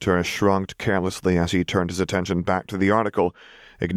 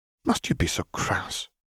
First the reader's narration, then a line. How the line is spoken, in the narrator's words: Doria sighed disapprovingly